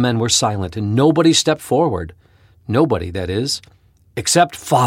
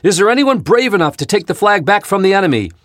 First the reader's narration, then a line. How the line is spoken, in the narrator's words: Then the captain cried out